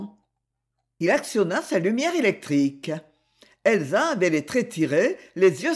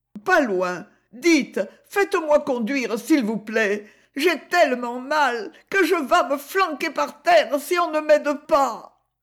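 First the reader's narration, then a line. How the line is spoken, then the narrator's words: Moaning, doubled in pain. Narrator (French): gémit Elsa en se ployant en deux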